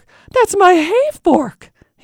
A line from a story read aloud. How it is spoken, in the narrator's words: he exclaimed